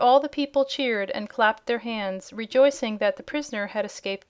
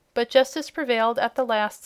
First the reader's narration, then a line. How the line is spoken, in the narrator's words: said Ozma